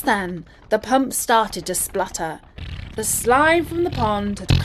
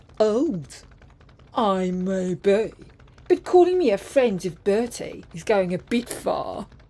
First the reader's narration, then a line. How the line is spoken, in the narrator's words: Colin grumbled to himself